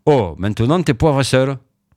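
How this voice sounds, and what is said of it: Southern French accent. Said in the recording (French): “avec l'accent du sud”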